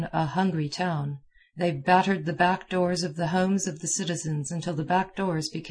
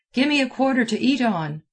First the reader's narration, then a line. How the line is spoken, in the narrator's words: blurted out